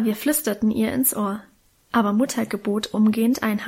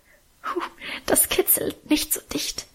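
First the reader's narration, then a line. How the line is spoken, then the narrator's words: Soft laughing protest. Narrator (German): wehrte leise lachend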